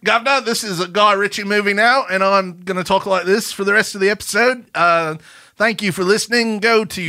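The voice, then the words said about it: Put-on accent sounding Australian. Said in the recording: “you're going straight up Australian right now.”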